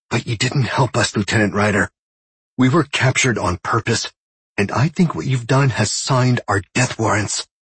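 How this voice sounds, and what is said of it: Raspy female voice. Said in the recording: “she said in a raspy voice.”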